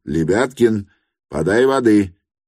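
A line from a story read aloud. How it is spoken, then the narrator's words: Guffawing laughter. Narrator (Russian): и при этом хохотала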